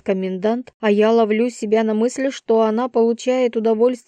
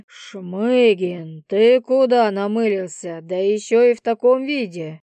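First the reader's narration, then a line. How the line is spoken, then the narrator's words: Menacing question. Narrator (Russian): Вопрос раздается слишком грозно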